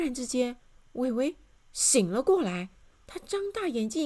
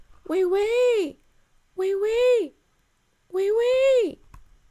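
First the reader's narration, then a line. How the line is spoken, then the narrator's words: Loud, muffled shout. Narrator (Chinese): 他在帽子下大声地喊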